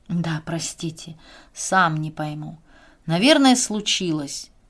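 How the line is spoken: Confessing with a heavy sigh. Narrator (Russian): признался он, тяжело вздохнув

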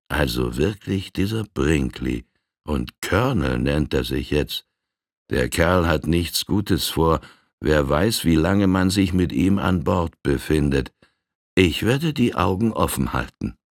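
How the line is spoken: Quiet, to himself. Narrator (German): sich leise sagte

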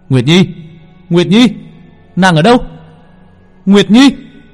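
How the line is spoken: Howling, screaming. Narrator (Vietnamese): Long Vân gào thét

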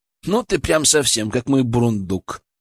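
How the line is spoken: Inner snort, unspoken. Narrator (Russian): хмыкнул я мысленно

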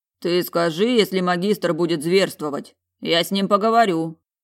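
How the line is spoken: Deep bass voice. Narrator (Russian): пробасил Олан

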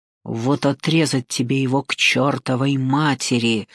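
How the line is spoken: Hissing. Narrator (Russian): прошипел он

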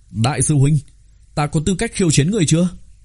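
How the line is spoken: Exuberant loud laughter. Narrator (Vietnamese): Bạch Nguyệt Lâu thần thái phi dương, cất tiếng cười to

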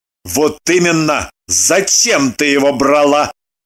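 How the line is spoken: Stern question. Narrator (Russian): Строго поинтересовался Лагутин

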